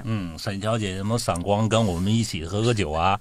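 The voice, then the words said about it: Odd Hong Kong-accented Mandarin. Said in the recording (Chinese): “他的那个港普是配音的……他是能够听得懂粤语，会说一些粤语的，所以他就配出了这么奇怪口音的那种港普”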